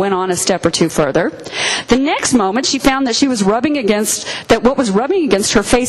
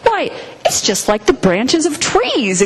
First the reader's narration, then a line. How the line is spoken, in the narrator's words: exclaimed Lucy